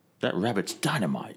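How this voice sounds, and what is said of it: Bad put-on Cockney accent. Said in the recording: “that's not a very good accent. Not very good at all ... Cockney accent”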